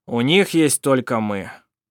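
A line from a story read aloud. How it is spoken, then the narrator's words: Dry. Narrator (Russian): сухо сказал Сармик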